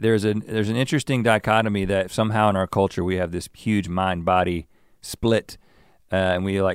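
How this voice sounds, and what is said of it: Usual voice. Nothing is said of it.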